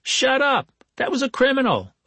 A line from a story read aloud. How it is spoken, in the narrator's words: a woman shouted